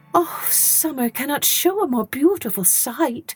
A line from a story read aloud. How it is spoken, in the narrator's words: she exclaimed